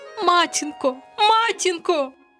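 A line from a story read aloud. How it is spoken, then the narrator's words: Frightened cry. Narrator (Ukrainian): крикнула вона, перестрашена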